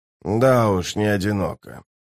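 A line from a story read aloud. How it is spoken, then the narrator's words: Grumble. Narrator (Russian): проворчал Скворец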